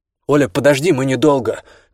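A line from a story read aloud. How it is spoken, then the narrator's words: Shout. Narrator (Russian): крикнул Данилевский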